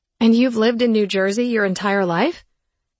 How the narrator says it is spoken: Mark laughed

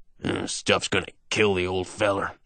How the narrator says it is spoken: he mutters

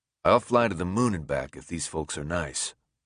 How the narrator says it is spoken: Alec replies in a completely dead voice

